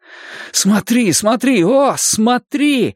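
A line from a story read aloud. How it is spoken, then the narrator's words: Sharp cry. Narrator (Russian): вскрикнул я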